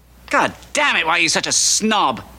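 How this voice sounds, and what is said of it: Raised, angry shouting voice. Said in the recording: “I raised my voice to you. I've never done that before.”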